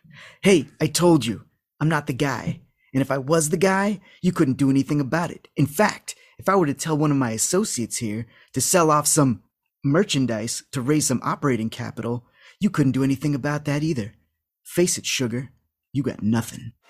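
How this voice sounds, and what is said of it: Imitates another person's voice. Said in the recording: “I cannot do a Richard Grieco voice, but I'm gonna try.”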